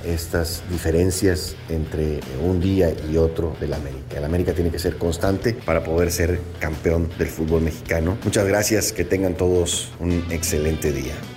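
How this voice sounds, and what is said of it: Radio announcer voice. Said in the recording (Spanish): “Tiene voz de locutor”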